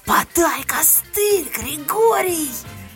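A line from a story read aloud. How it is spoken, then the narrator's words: Wailing shout. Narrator (Russian): Я взвыла и, крикнув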